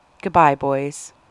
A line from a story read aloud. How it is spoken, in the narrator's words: said softly